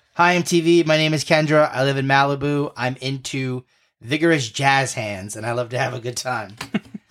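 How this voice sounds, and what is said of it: Valley Girl accent impression. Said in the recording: “my best Valley Girl impression”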